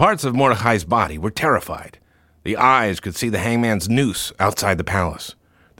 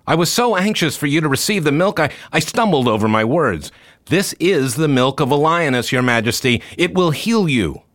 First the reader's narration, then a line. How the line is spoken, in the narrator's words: Mordechai called out